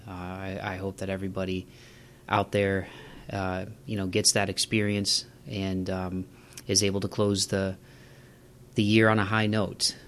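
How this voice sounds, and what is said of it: Somber, subdued voice. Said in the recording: “there is a bit of a somber note for the tone of this. You can probably hear it in my voice.”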